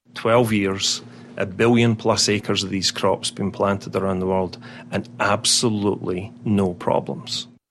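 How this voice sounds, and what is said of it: Scottish burr accent. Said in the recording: “You can tell he wasn't born here, right? ... a Scottish brogue. ... it's more accurately a burr.”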